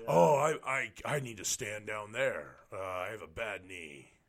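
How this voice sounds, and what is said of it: Imitates another person's voice. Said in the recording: “You're doing a good Charlie voice.”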